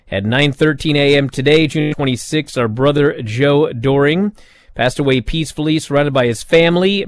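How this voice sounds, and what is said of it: Unwell, rough-sounding voice. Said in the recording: “I'm under the weather. My voice is all messed up.”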